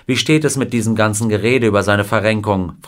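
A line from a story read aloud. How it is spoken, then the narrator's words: Plain. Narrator (German): fragte ihn Wilder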